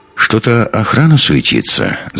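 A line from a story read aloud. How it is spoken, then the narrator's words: Thoughtful remark. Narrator (Russian): задумчиво заметил Андерс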